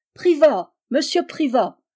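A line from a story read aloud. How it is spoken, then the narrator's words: Chorus crying out. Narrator (French): s'écria le cœur, ajoutèrent quelques voix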